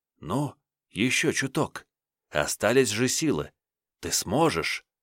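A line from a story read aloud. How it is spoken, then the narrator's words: Very quiet whisper. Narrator (Russian): некто невидимый тихо-тихо шепчет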